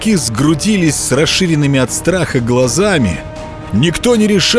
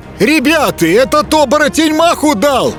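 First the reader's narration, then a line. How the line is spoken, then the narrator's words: Excited yell. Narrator (Russian): азартно завопил рябой еропка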